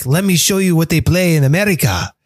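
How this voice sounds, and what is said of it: Bad put-on Mexican accent. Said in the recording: “it's the worst Mexican accent I've ever done in my life”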